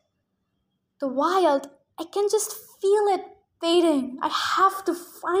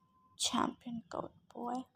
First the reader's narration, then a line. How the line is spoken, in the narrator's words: he muttered dejectedly